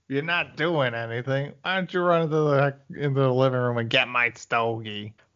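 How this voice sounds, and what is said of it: Imitates another person's voice. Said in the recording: “a pretty good William Hickey impression. ... not bad.”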